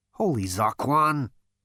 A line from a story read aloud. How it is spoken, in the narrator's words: muttered Zaphod